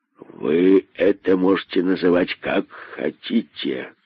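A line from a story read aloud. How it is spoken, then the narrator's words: Contemptuous hiss. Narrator (Russian): Презрительно прошипел удав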